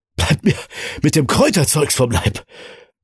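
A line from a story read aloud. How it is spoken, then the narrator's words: Panting protest. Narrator (German): protestierte er keuchend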